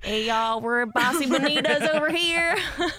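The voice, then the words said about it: Put-on Southern accent. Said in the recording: “doing Southern accents”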